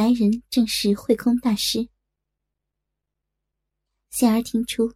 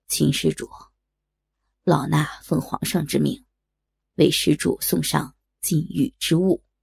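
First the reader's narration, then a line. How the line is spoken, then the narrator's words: Calm, unhurried. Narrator (Chinese): 那个声音却不见惊慌，依旧不紧不慢的道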